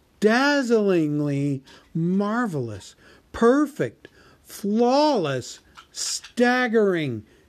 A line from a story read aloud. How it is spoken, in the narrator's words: exclaimed Bilbo aloud